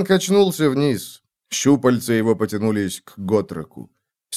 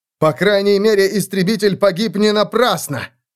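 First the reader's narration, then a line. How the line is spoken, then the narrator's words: Shout. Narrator (Russian): крикнул он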